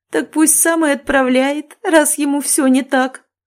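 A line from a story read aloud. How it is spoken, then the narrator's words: Chuckling. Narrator (Russian): хохотнула Адовна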